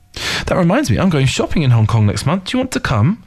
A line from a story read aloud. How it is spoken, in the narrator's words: Xia Xueting asked warmly